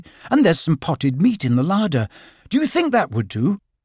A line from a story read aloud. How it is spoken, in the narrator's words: said Christopher Robin cheerfully